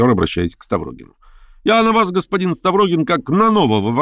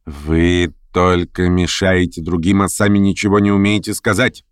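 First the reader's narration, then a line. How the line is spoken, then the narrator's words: Indignant grumble. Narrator (Russian): с негодованием проворчала хозяйка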